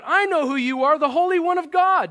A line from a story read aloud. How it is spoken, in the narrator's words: a demon cried out